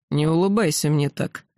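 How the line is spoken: Grumbling. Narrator (Russian): пробурчал Древний

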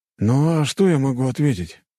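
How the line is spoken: Sad sigh. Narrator (Russian): грустно вздохнул Геннадий

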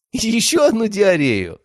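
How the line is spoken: Loud laughter. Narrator (Russian): расхохотался я

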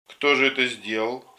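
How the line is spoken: Very angry question. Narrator (Russian): спросила Афанасия Никифоровна своим самым сердитым голосом

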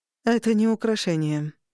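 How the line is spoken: Grim, mother. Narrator (Russian): мрачно сказала мама

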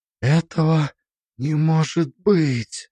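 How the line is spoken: Whisper. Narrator (Russian): прошептала Алиса

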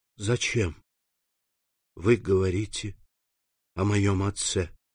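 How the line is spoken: Whisper. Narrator (Russian): прошептал он

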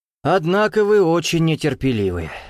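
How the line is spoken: Sighing. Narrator (Russian): вздохнул Лазар

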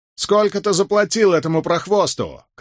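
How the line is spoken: Shout. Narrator (Russian): крикнул кто-то

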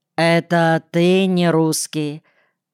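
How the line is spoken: Odd burring question. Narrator (Russian): как обычно, картавя, странным тоном спросил

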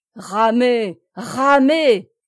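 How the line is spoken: Delirious frantic shout. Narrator (French): cria Plélan en proie à une sorte de délire

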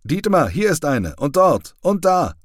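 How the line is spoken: Calling out to a friend. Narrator (German): ruft Hädicke seinem Freund Wiermann zu

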